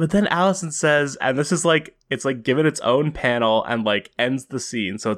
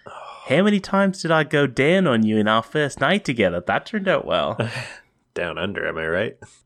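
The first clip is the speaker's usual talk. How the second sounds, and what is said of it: Put-on Australian accent. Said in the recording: “I'm going to do my accent here.”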